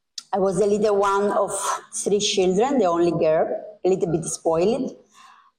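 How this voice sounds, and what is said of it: Cuban accent. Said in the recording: “I am from Cuba. You may be here from my accent”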